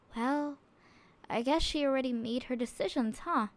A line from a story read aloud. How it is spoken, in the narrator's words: She sighed to herself